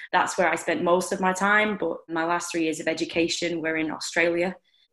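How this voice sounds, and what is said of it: Lancashire English accent. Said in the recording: “as you can hear from my Lancashire accent”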